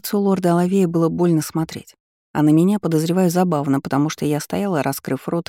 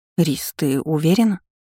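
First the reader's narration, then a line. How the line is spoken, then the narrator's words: Confused question. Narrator (Russian): растерянным голосом спросила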